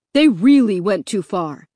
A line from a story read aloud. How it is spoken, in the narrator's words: Dad said angrily